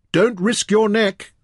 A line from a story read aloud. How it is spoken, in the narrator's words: Fen shouted anxiously